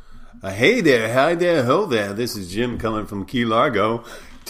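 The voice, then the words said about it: Morning radio host voice. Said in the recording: “This is not a morning show, though I can kind of do the voice a little”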